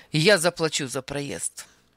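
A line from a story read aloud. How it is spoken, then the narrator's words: Sharp statement. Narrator (Russian): заявил он резко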